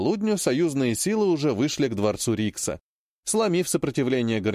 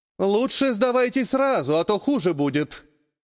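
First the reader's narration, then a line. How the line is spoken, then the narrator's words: Magically amplified girl's shout. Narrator (Russian): прокричала девушка, усилив голос магии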